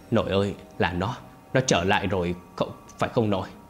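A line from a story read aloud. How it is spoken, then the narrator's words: Muttering. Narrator (Vietnamese): miệng lẩm bẩm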